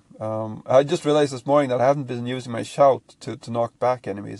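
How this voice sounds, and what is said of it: Voice not back to normal. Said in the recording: “my voice is not back to normal.”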